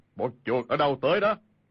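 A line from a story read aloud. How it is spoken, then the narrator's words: Big man's loud shout. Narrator (Vietnamese): thân thể cao lớn, đầu trọc bóng loáng, y quát lớn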